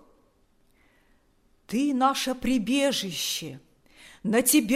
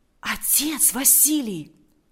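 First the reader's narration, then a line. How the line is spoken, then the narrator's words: Whispered. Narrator (Russian): прошептал Валериан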